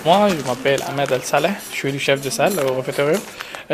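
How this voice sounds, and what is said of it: Slight Syrian accent in French. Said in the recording (French): “Votre petit accent vient d'où ? ... je viens de Syrie”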